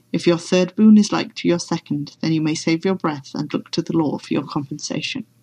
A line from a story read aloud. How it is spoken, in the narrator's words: said wearily